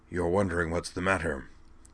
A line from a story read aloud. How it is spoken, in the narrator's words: Jacron murmured in Kate's ear